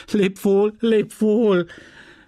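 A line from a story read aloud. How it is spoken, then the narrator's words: Scream. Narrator (German): schrie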